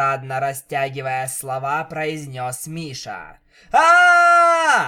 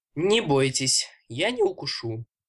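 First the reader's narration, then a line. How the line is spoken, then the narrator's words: Calm reassuring voice. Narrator (Russian): спокойно сказал Миша, стараясь успокоить перепуганных малышек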